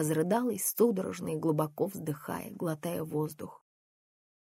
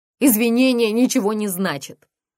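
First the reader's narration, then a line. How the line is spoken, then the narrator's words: Yelling. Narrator (Russian): завопила она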